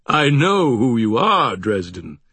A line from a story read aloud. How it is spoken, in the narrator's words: he rumbled